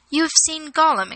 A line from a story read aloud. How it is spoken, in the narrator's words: exclaimed Frodo in amazement